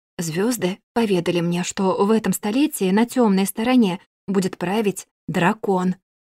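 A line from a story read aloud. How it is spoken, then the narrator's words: Shy quiet speech. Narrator (Russian): профессор, будто стесняясь, тихо произнес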